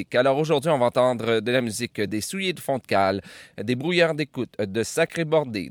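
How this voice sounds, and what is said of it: Speaks French with a regional accent. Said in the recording (French): “je sais qu'il y en a qui aiment mon accent”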